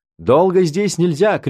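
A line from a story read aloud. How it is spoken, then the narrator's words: Shout. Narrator (Russian): крикнул мне так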